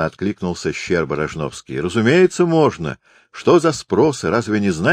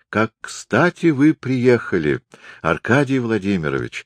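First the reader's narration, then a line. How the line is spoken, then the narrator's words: Warm, smiling. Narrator (Russian): ласково улыбнулась Ольга Оскаровна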